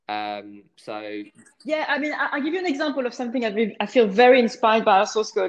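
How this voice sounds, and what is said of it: French accent. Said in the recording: “someone who carries a French accent with me, and my parents were French”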